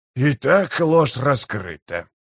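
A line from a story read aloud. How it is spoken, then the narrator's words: Mutter. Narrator (Russian): наконец пробормотал он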